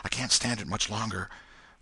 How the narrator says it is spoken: whispered Tom in short catches between breaths

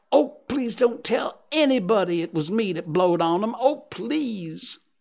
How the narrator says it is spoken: Huck sprang up and exclaimed

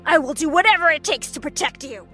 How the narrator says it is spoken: he barked back

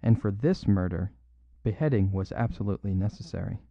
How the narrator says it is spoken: said Brown calmly

